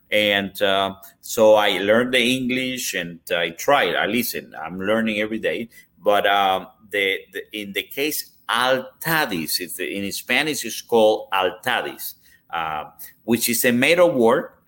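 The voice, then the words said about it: Cuban-accented English. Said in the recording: “my Cuban accent”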